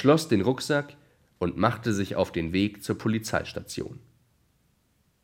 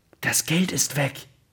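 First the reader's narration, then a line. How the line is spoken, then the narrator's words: Whisper. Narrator (German): Der vermeintliche Dieb flüsterte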